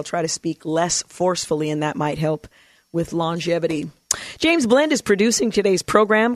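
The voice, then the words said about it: Gravelly, hoarse voice. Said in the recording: “my voice is a little gravelly”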